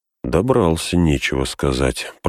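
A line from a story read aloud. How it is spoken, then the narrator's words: Mumbled. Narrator (Russian): пробормотал Сэм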